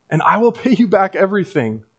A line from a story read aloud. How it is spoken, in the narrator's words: begged